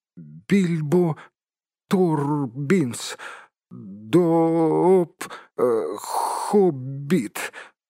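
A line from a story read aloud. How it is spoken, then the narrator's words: Forced, trembling with fear. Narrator (Russian): выдавил бедный господин Торбинс, дрожа как осиновый лист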